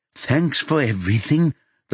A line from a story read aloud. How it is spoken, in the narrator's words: the former patient says in a tremulous voice